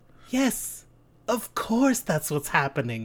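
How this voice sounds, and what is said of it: Sinister villainous voice. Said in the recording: “you got that evil voice, though. You do have it. You sound like you just, like, tied someone to train tracks.”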